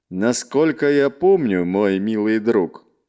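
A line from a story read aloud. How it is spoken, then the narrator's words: Sober voice, barely restrained anger, growled. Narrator (Russian): Совершенно трезвым голосом, еле сдерживая рвущийся наружу гнев, рыкнул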